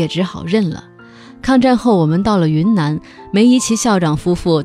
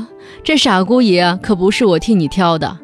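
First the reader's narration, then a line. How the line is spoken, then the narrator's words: Laughing father. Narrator (Chinese): 父亲笑了，说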